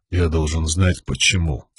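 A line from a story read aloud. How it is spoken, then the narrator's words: Very quiet question. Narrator (Russian): спросил князь так тихо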